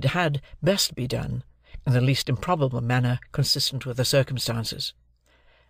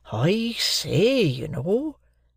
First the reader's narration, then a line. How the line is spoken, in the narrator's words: muttered Joe, in very serious remonstrance